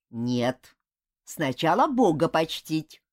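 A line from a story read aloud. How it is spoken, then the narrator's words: Stern grandmother. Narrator (Russian): строго сказала бабушка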